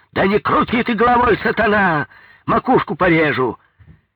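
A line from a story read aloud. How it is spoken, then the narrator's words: Distant shouting. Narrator (Russian): из третьего или четвертого отсека кто-то кричал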